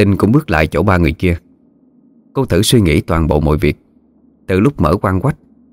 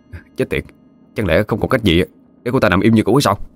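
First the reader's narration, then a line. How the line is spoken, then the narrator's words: Muttering. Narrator (Vietnamese): miệng lẩm bẩm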